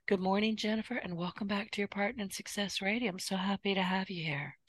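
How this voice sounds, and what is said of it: Hoarse, strained voice. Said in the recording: “I'm losing my voice already.”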